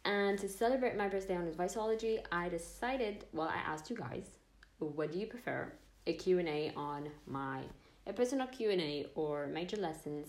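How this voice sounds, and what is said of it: Excited, upbeat voice. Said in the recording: “you can tell by my voice that I'm really excited”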